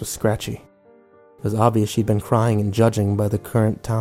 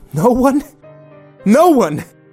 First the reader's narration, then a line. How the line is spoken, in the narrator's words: she yelled